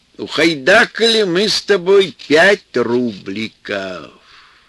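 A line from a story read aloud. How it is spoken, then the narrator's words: Bittersweet old man. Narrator (Russian): дед горько и весело объявлял Петьке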